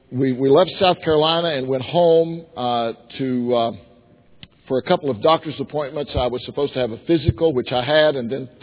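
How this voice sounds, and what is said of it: Unwell, impaired speaking voice. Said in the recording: “sorry about my voice ... I got very sick”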